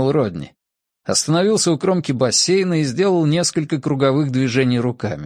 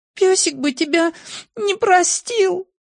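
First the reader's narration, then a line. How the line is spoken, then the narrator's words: Sobbing. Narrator (Russian): всхлипнула Сьюзен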